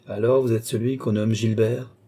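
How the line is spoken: Plain. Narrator (French): dit Balzamo

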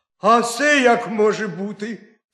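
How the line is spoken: Sharp cry, hare. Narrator (Ukrainian): скрикнув заєць

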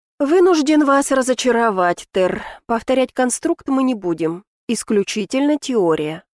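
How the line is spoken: Plain. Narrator (Russian): ответил его высочество

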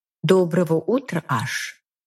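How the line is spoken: Soft, slightly nervous. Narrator (Russian): Очень мягким и чуть взволнованным голосом говорит она

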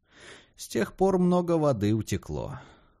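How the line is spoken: Sighing. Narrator (Russian): вздохнул Хэскоу

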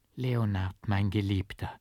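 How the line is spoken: Soft lisping whisper. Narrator (German): lispelte sie leise

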